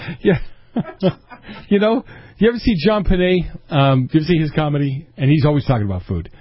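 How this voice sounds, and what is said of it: Usual voice. Nothing is said of it.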